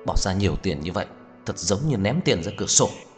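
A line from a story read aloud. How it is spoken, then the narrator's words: Muttered through gritted teeth. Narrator (Vietnamese): Cố Dư Sinh nghiến răng nghiến lợi, lầm bầm một câu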